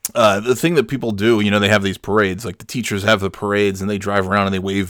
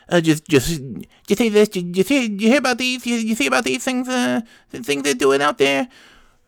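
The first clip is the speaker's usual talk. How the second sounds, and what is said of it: Imitates another person's voice. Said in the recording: “That's my really good Jay Leno imitation.”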